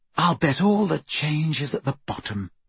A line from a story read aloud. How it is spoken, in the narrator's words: sighed Hermione